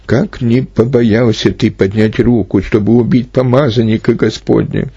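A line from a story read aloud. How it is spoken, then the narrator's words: Exclaiming. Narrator (Russian): При таком рассказе Давид воскликнул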